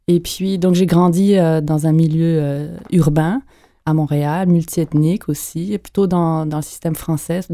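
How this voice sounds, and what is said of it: French-sounding accent, mildly marked. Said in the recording (French): “d'où mon accent ... quand ils me ils m'entendent pour la première fois, ils pensent que je suis française ... pas si prononcé”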